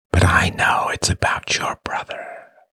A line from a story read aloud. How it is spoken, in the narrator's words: whispered Peter